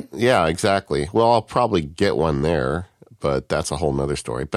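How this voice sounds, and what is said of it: Slightly congested voice from a cold. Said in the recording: “I've got a cold this week. I don't know. Can you tell? ... So yeah, a little bit ... I'm going to be hacking and wheezing a little bit during the show”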